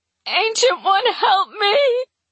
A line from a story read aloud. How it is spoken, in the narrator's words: I wail, my chest heaving, sure I'm going to retch